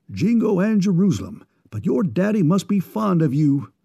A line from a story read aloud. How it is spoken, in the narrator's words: exclaimed the enthusiastic New Englander